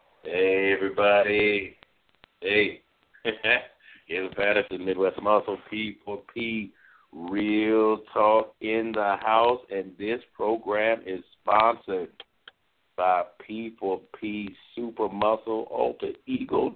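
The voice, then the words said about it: Hoarse, nearly lost voice. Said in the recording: “my voice is gone ... Never had that happen before”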